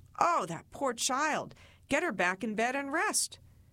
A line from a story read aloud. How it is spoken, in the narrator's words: family would exclaim